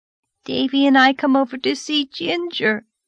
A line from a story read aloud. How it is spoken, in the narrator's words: sobbed Dora